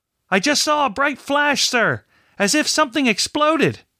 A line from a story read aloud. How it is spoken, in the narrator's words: the lookout yelled